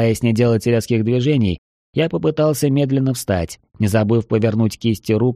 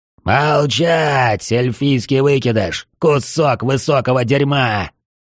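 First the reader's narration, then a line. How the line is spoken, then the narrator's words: Knight hissing loudly. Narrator (Russian): Рыцарь уже не говорил, а громко шипел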